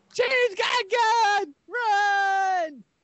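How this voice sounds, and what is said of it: Screaming. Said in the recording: “Stop screaming”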